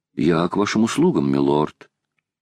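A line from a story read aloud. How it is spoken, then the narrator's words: Calm. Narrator (Russian): Он сказал спокойно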